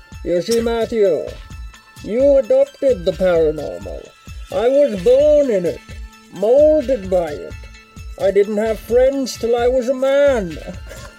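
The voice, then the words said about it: Bane character voice impression. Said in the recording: “that Bane impression”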